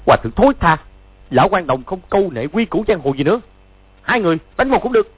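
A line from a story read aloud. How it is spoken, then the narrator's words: Furious shout. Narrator (Vietnamese): Chu Bá Thông cả giận quát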